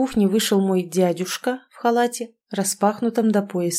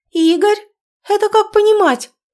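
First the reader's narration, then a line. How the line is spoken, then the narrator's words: Sudden high shriek. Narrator (Russian): Неожиданно высоко взвизгнула гостья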